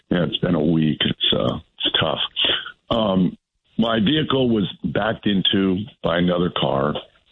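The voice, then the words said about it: Hoarse voice from laryngitis. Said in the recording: “my terrible laryngitis”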